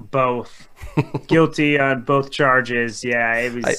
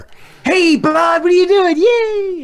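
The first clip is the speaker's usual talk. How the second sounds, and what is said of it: Baby voice for talking to pets. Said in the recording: “use the baby voice?”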